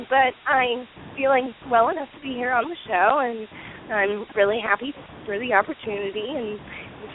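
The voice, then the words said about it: Congested voice from a cold. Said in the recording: “I apologize for my voice. I do have a little bit of a cold right now”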